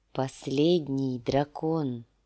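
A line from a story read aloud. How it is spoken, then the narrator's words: Weak whisper. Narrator (Russian): слабым голосом шепнул сир Джорах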